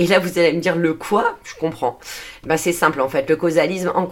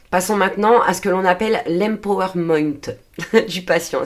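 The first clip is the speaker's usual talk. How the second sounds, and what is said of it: Poor English accent on one word. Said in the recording (French): “mon accent anglais pourri”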